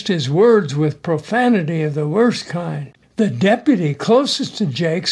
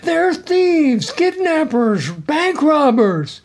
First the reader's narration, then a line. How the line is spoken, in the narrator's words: Jake … hollered again, this time yelling